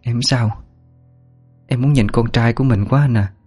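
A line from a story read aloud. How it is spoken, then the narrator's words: Soft, weak reply. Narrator (Vietnamese): giọng khẽ đáp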